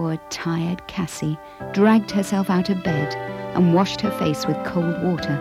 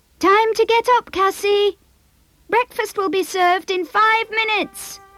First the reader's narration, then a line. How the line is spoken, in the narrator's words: her mother yelled out